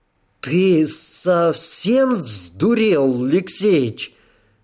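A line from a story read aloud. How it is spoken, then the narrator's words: Breathless broken exhale. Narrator (Russian): В четыре приема выдохнул Хокканин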